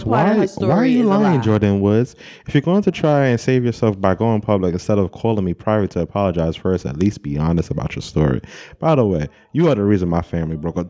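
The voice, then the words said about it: Imitates another person's voice. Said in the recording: “In my Khloe Kardashian voice.”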